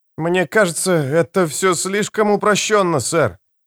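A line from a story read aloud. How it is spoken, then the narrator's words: Uncertain remark. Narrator (Russian): неуверенно заметил Леонардс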